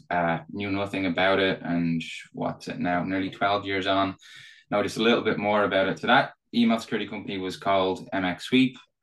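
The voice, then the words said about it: Irish accent. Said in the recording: “probably tell from my accent. Uh, so I'm Irish. I'm based here in Dublin.”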